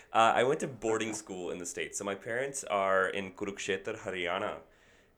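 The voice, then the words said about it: American accent. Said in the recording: “So the American accent isn't fake ... oh, you have an American accent ... So the accent developed”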